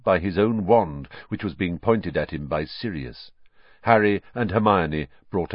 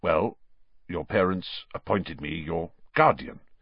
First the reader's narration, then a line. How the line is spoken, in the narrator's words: said Sirius stiffly